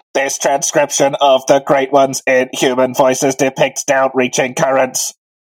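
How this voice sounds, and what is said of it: Robotic Dalek-style voice. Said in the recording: “read in your best Dalek voice”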